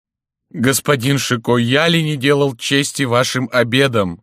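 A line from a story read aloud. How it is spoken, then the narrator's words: Sobbing. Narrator (Russian): говорил он, всхлипывая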